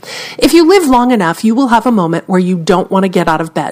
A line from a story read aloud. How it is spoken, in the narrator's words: says Winfrey